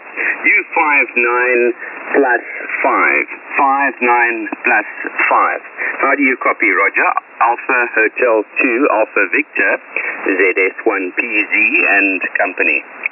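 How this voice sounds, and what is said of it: South African accent. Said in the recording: “That South African accent always gets not only my ear, but my heart as well.”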